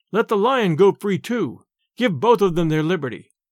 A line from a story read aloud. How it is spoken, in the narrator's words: Others cried